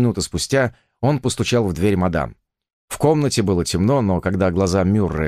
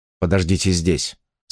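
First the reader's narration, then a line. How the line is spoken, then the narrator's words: Plain. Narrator (Russian): сказал он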